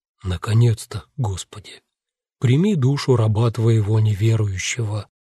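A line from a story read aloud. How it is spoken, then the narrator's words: Calm, distinct speech. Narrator (Russian): Витя спокойно, отчетливо произнес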